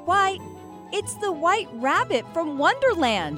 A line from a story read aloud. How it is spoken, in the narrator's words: she cried